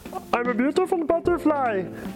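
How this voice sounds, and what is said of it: Poor impression of cartoon caterpillar. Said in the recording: “the example he used of Heimlich, the caterpillar ... this is going to be a terrible impression,”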